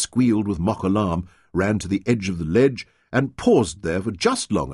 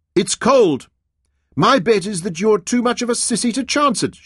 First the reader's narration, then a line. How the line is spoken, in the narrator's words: she shouted